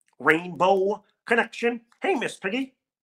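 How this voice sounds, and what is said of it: Kermit the Frog character voice. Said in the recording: “I sound like Kermit the Frog too ... Like, I don't have to do Kermit. It's just how I sound.”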